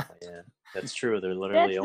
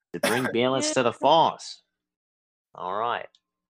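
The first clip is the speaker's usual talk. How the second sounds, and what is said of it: Put-on Australian accent. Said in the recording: “Why did you say that in an Australian accent?”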